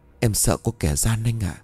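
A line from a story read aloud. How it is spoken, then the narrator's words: Trembling voice. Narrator (Vietnamese): Xoan run rẩy nói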